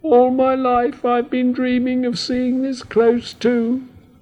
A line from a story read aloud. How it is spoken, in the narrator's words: squeak with a sigh